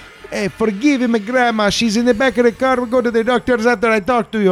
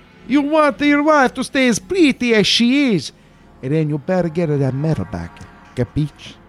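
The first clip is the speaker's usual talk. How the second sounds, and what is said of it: Put-on Italian accent. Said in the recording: “what foreign accent were they threatening him in ... All signs point to Italian.”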